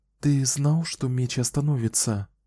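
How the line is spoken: Reply after deep sigh. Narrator (Russian): глубоко вздохнул и ответил

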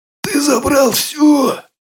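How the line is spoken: Hoarse rasp. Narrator (Russian): прохрипел он

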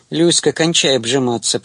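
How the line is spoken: Grumbling young man. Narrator (Russian): проворчал молодой человек

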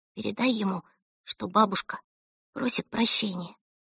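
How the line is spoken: Whisper. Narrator (Russian): прошептала Эльса

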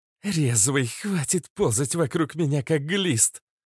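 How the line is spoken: Hissing in pain. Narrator (Russian): прошипел от боли Иштар

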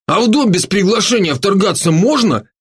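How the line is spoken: Indignant snort. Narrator (Russian): возмущенно фыркнул Поляков

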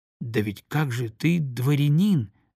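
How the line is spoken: Plain. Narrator (Russian): сказал Зухин

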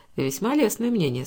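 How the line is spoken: Dry remark. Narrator (Russian): сухо заметил он

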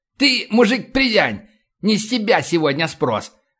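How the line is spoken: Barking, trying to sound threatening. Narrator (Russian): рявкнул, пытаясь придать голосу угрожающие интонации

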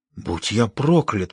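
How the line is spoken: Whisper. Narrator (Russian): прошептал Расти

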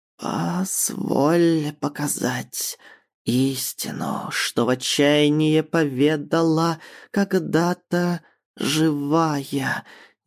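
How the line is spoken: Unnatural rasp. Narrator (Russian): неестественно прохрипела Навья

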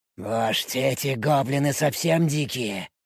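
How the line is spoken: Hissing. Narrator (Russian): прошипел Спартак

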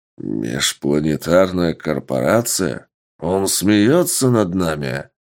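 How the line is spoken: Big man growling. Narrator (Russian): прорычал здоровяк

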